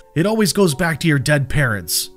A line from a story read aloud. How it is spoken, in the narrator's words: Matt yelled in fury